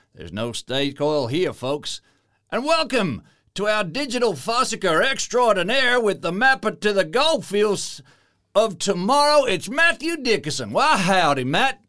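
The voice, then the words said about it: Put-on American Western accent. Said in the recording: “I don't know why I got all Western all of a sudden. ... that accent”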